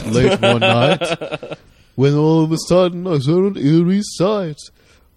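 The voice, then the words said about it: Imitates another person's singing voice. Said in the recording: “Here's my impression of Vincent Price singing ... that's a very good impression”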